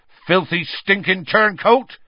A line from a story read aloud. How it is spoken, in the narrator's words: Hagrid said, so loudly that half the bar went quiet